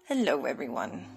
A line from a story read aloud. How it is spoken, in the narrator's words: greeted in a hushed tone